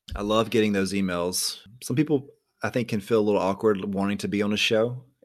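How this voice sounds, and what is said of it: Calm, laid-back Southern American accent. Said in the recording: “I'm very laid back, Southern accent kind of guy. Like, I'm just very calm.”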